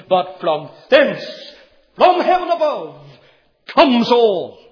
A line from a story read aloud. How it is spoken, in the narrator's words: he cried again